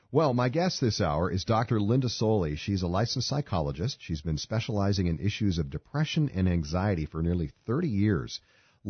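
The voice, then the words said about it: Congested, lower-pitched voice. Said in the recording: “I've got a pretty bad cold today ... my voice sounds like an octave lower than usual ... I don't sound like my usual self”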